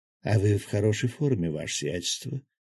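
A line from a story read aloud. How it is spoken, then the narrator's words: Languid murmur. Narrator (Russian): томно пробормотала Демонесса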